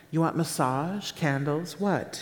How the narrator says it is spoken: she asked

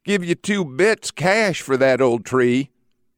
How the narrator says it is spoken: the rich mill owner's lazy wife leans out and whines

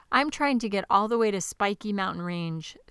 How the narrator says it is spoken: said the dragon

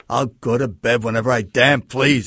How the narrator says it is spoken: he snarled

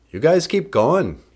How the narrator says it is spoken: he said

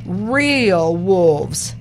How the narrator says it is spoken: cried

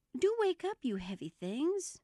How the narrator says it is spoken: went on in an impatient tone

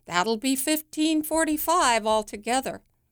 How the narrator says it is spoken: the cashier, who rings up the groceries, including the candy, and yells

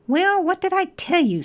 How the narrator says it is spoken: said the rat crossly

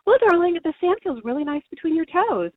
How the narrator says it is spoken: cheerfully answering him

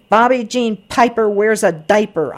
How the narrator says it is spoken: hollered

